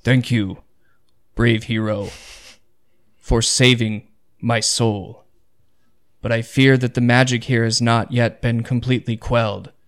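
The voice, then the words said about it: Deep narrated character voice. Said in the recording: “deep voice”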